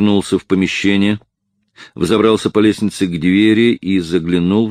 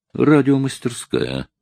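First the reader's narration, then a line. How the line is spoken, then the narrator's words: Muttering to himself. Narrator (Russian): пробормотал он про себя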